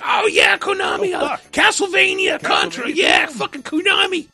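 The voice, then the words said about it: Imitates an excited 80s kid. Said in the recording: “my impression of every 80s kid”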